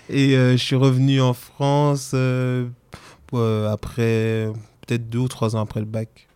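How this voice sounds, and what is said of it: Slight Antillean French accent. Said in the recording (French): “es antillais, mais tu as grandi aux Antilles ... t'as un petit accent.”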